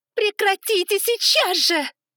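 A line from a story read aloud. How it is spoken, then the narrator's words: Full-force shout, voice breaking. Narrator (Russian): Прокричала я, что было мочи, и голос сорвался под конец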